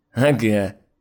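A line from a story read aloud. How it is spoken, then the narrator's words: Snorting. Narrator (Russian): хмыкнул Сергей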